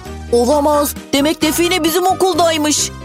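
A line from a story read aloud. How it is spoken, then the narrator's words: Shouting. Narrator (Turkish): diye bağırdı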